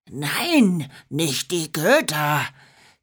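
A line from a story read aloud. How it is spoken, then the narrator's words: Frightened hiss. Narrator (German): zischte Bronco bleich wie Schneematsch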